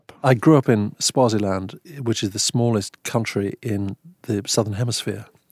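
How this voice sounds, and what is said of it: Distinct English accent. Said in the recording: “You have obviously an English accent, but you have a distinct accent”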